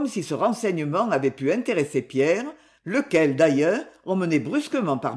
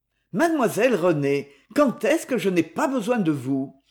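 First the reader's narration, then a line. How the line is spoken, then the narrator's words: Smooth-talking exclamation. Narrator (French): s'exclama Courtois, toujours beau parleur quand il n'avait pas le cafard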